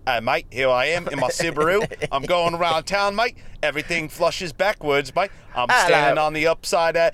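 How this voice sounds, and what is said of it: Put-on Australian accent. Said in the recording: “Can you do an Australian accent right now?”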